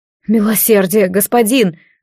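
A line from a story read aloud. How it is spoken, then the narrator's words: Breathed out. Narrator (Russian): выдохнул Риалас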